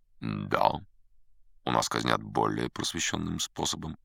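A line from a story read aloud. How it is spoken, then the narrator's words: Calm. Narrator (Russian): по-прежнему спокойно подтвердил Бэп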